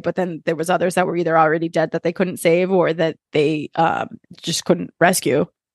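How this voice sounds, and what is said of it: Breathless, out-of-breath speech. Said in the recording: “I'm out of breath.”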